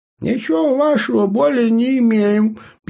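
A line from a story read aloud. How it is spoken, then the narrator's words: Distant squeak. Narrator (Russian): пискнуло с той стороны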